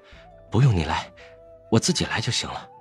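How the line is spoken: Relieved murmur. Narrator (Chinese): 魏无羡松了口气，喃喃道

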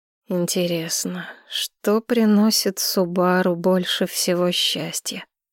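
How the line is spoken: Musing mutter. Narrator (Russian): пробормотал Нисина

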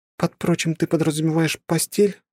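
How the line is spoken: Sad question. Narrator (Russian): грустно спросила она

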